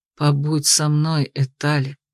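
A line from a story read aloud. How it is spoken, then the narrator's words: Quiet request. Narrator (Russian): попросил он тихо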